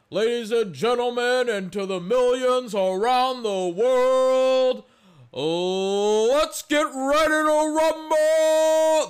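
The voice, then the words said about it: Good imitation of a boxing announcer. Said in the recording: “That's a pretty good imitation, I might add... I was kind of surprised at how well I pulled it off.”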